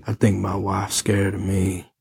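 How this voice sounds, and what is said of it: Put-on Southern American accent. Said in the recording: “He had a southern accent.”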